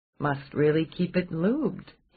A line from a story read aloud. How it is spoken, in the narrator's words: he murmured